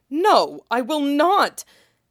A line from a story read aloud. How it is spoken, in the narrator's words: said drew a sharp, enraged breath and snapped